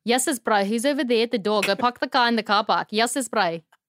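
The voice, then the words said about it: Put-on South African accent. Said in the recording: “my South African comes out ... We're good with accents. ... I mean, really good”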